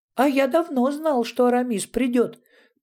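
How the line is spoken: Squeaking. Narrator (Russian): пропищал Ятуркин Жансерхив

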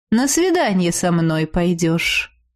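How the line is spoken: Half-elf's calm voice. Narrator (Russian): спокойно проговорил полуэльф

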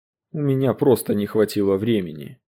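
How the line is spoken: Answered wearily. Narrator (Russian): устало ответил Эремен

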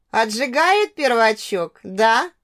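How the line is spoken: Laugh from next room. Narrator (Russian): хохотнула Надя из соседней комнаты

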